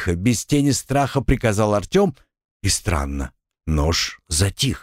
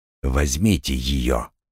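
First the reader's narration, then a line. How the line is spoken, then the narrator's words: Quiet. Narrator (Russian): тихо проговорил он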